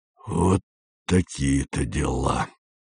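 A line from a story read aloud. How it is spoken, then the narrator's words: Gloomy. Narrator (Russian): сказал дядя Юра уныло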